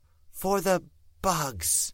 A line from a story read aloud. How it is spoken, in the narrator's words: she said, whispering the last word